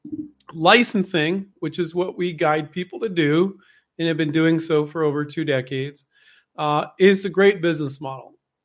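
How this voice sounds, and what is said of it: Slightly rough, unwell-sounding voice. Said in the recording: “I'm still recovering a little bit. So if my voice is a little messed up”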